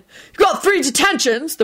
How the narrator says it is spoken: the prefect barked out

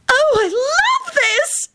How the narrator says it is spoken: she yelped

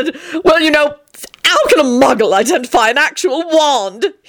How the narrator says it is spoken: He said triumphantly

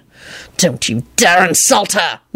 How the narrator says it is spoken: Lupin snarled

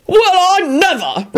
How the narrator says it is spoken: Richard said furiously

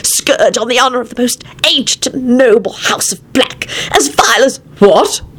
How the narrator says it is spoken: Arthur said sharply

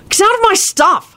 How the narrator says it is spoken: snapped Harry

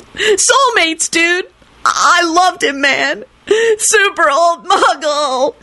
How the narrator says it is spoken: finished with a keening howl

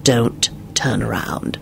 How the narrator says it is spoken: he hissed in her ear

